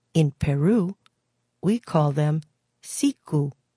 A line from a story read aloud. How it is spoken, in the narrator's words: said one musician